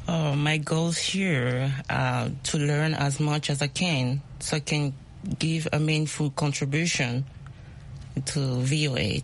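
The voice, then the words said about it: Speaks with a noticeable accent. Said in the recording (French): “My accent. ... It's okay. We love accents.”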